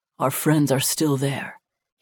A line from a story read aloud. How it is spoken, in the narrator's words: he whispered